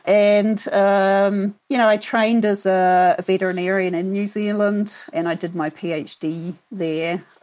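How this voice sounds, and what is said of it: New Zealand accent. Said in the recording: “I can detect a bit of an accent ... I'm actually from New Zealand originally”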